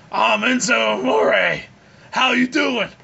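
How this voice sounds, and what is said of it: Imitates another person's voice. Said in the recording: “You got the man voice going”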